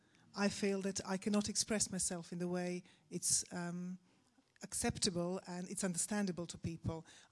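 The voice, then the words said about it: Non-native English accent. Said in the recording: “I'm a foreigner ... I'm aware of my accent.”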